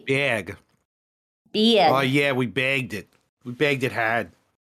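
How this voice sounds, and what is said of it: Put-on Boston accent. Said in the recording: “I think I'm doing the wrong accent. ... Boston? ... Yeah, that's more Boston.”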